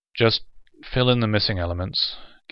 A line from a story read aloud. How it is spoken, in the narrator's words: Gannett said wearily